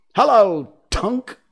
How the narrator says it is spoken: cried the wondering boys

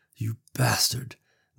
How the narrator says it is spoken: Nicole hissed at the screen

